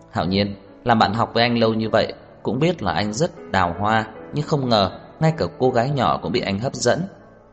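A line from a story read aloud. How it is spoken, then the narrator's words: Knowing, smiling. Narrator (Vietnamese): Anh hiểu phần nào, mỉm cười nói với Trang Hạo Nhiên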